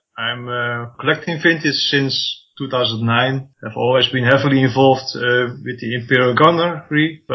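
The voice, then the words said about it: Slight Dutch accent. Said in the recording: “I'm from Holland. I probably have a slight accent.”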